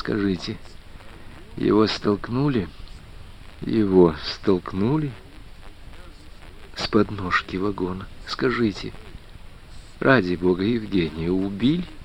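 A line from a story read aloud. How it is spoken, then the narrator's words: Quiet, agonizingly clear question. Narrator (Russian): шепотом повторив еще раз последние слова, тихо, но мучительно ясно спросила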